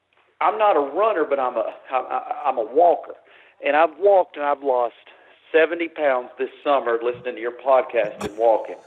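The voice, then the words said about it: Southeastern US accent. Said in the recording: “I can't tell that you're from the Southeast at all, that accent.”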